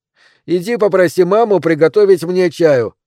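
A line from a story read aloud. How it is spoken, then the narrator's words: Shout. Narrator (Russian): крикнул он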